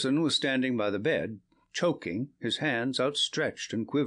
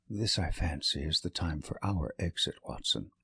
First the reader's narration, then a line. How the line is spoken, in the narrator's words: said Holmes in a whisper